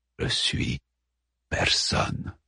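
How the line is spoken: Breathless murmur. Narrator (French): murmura-t-il haletant

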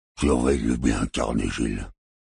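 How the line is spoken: Giant's low mutter. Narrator (French): marmonna le géant borgne

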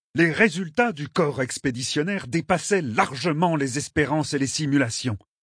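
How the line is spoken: Barked. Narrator (French): aboya l'amiral Aldikakti

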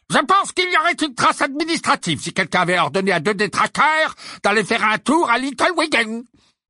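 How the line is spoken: Barked angrily. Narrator (French): aboya Fudge

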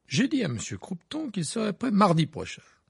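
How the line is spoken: Smug explaining. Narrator (French): expliquait Percy d'un ton suffisant

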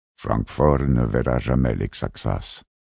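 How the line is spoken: Murmured. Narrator (French): murmura Gersalimin

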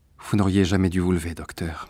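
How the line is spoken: Nurse sighing. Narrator (French): soupira l'infirmière

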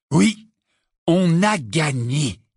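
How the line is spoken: Slow, savoring words. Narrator (French): dit lentement Ron en savourant ses mots

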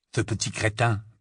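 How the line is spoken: Muttered. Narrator (French): murmura Ron

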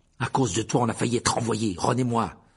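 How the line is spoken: Fierce tone. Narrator (French): dit-il d'un ton féroce

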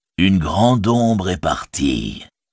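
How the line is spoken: Plain. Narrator (French): dit Gandalf

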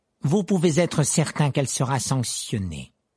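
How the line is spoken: Icy assurance. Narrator (French): assura monsieur Croupton d'une voix glaciale

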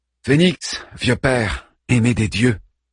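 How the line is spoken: Warm voice. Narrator (French): me dit Achille d'une voix chaleureuse

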